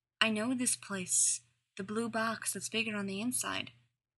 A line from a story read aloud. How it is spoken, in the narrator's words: murmured John